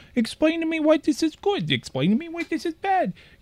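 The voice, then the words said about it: Childlike baby voice with stutter. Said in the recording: “What was that baby voice? ... why did it have a stutter?”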